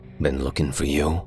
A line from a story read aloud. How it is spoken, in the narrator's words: he said after a moment, his voice all edges and canyons